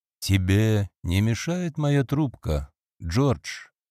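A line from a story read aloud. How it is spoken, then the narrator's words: Calm question. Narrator (Russian): спокойно спросил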